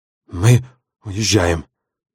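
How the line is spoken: Hurried indistinct mumbling. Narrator (Russian): невнятно бормотал он, лихорадочно

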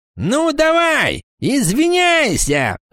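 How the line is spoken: Shout. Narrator (Russian): закричал Теорион

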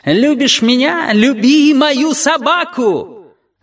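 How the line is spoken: Blind man squealing. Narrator (Russian): слепой тем не менее успел провизжать

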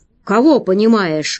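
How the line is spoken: Menacing monster question. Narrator (Russian): грозно спросило чудовище

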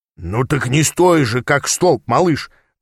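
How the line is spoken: Barking. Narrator (Russian): рявкнул Аас

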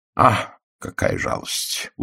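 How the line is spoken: Dejected mutter. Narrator (Russian): удрученно пробормотал Пуаро

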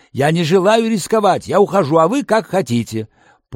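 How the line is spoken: Interrupting shout. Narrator (Russian): Человек в берете прервал меня, крикнув

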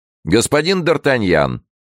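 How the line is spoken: Shouting. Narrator (Russian): крикнул король

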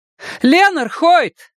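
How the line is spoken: Shouted again. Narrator (Russian): Снова крикнула она

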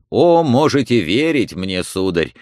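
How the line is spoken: Exclamation. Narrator (Russian): воскликнул фриц

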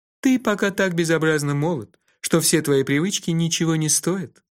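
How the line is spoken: Laughing. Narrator (Russian): рассмеялся Кофа

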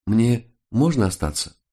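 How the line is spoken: Timid question. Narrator (Russian): Жена робко спросила

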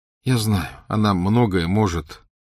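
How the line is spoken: Tired. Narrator (Russian): устало сказал Гарри

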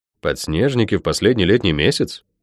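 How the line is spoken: Incredulous mutter. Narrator (Russian): недоверчиво пробормотал я

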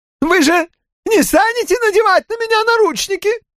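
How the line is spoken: Squeaked. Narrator (Russian): пискнул Элджер Кейтс

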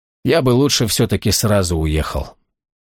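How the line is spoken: Quiet reply. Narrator (Russian): Сергей тихо ответил

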